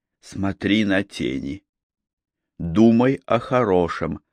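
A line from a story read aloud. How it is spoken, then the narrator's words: Whisper. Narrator (Russian): прошептала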